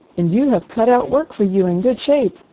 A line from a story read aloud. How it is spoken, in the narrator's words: cried the doctor